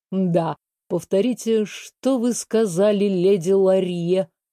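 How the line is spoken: Slow. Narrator (Russian): Медленно проговорил Этьен

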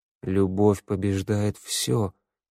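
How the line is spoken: Muttered. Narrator (Russian): пробормотал Теодор

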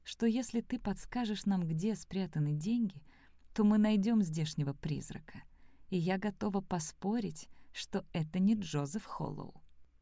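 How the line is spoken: Quiet. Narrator (Russian): тихо сказала она дневнику

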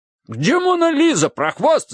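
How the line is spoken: Yelling. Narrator (Russian): завопил

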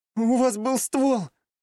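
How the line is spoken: Whimpering in pain. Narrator (Russian): Болезненно хныкая, ответила страдающая женщина

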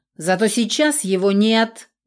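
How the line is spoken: Sudden bark. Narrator (Russian): неожиданно рявкнул управляющий

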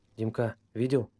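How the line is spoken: Quiet. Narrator (Russian): тихонько сказал Вася

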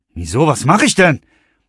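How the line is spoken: Startled shout. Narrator (German): rief der Fahrer und nahm erschrocken

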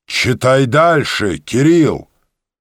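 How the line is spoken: Young booming bass. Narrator (Russian): Вдруг молодой бас прогудел

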